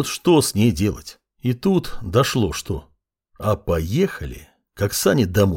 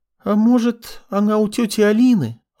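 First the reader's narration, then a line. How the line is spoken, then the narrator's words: Timid suggestion. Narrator (Russian): робко предположила Маринка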